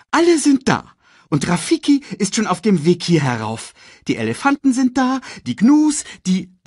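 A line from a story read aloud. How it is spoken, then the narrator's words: Excited report. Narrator (German): berichtete er aufgeregt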